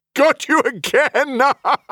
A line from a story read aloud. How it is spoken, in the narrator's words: Heliox said with a full-on laugh